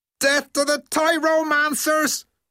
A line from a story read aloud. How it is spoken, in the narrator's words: he roared